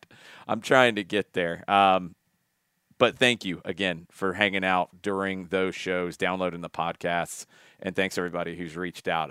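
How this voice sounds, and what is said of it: Worn-out, strained voice. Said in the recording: “as you can hear from my voice, I don't think it's recovered from the final as of yet.”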